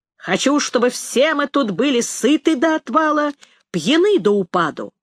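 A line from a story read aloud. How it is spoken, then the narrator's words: Loud declaration. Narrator (Russian): громко произнес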